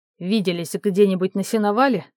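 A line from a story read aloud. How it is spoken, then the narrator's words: Smirking grunt. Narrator (Russian): хмыкнул он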